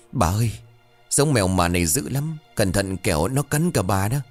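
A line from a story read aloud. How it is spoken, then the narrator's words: Frightened stammering. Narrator (Vietnamese): Con sen đứng bên cạnh sợ hãi lùi lại, miệng của nó lắp bắp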